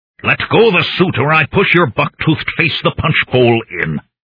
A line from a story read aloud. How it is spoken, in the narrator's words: I growled in my thickest Mr